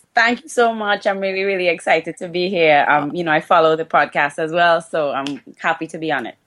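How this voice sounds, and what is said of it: Trinidadian accent. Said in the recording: “for those who can't pick up the accent ... Trinidad and Tobago”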